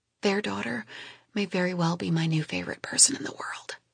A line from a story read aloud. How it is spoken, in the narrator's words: I quietly tell him